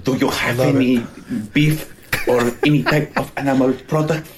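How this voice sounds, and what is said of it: Put-on Spanish accent. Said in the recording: “Spanish accent here... That's his impression of Spaniards”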